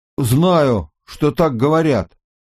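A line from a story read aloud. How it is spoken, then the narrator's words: Strained, mouth full. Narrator (Russian): У него был набит рот, выдавил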